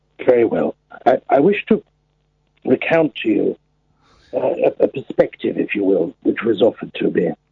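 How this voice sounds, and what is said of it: Put-on old man voice. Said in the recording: “in your old man voice”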